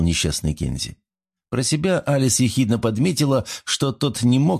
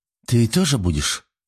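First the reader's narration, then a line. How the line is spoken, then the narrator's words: Confused question. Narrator (Russian): Растерянно поинтересовалась Алис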